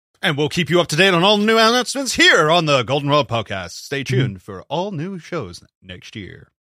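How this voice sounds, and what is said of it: Polished radio announcer voice. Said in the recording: “Got very good radio voice there. Loved it.”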